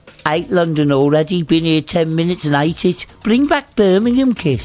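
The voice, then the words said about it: Birmingham accent. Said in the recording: “He did that in a Birmingham accent as well.”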